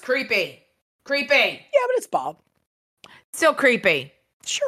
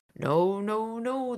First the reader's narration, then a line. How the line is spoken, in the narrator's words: skull muttered